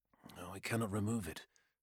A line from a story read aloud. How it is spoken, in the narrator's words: uttered Neros in a low voice, his back to Eriad